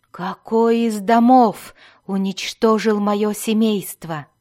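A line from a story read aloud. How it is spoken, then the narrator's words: Growl. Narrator (Russian): прорычал Альтон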